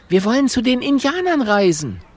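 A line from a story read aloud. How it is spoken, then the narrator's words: Called out. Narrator (German): ruft Mathilda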